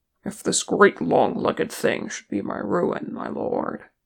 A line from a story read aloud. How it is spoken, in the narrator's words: he muttered